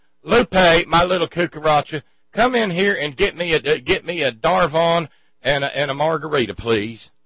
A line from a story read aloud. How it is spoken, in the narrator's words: hollers